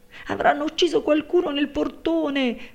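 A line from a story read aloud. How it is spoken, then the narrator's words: Maid's shrill scream. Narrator (Italian): strillò la serva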